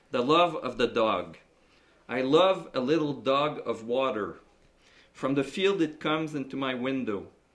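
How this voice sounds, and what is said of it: Accented English reading. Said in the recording (French): “Quand je traduis par écrit, il n'y a pas d'accent, mais il y en a un quand je parle.”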